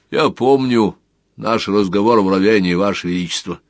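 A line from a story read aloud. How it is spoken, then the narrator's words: Plain. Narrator (Russian): сказал монах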